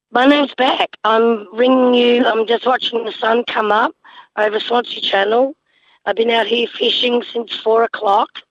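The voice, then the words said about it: Rough, unwell-sounding voice. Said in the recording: “Excuse my voice. I'm just recovering from influenza A”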